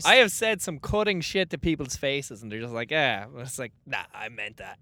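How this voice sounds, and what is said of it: Irish accent. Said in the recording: “just being feckin' an Irish guy ... Fucking cute ass accent”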